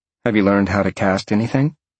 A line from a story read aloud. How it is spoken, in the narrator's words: Jolene asked